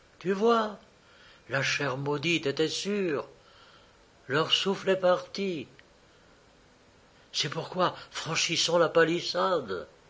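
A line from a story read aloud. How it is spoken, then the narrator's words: Whispered. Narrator (French): Elle dit tout bas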